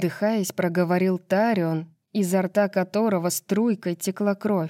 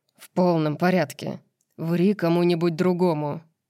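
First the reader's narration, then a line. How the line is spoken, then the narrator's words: Muttering grumble. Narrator (Russian): пробурчал Рун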